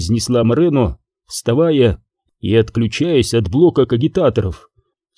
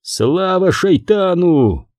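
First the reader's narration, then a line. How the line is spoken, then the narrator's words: Shouted out. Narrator (Russian): выкрикнул командир эскадрильи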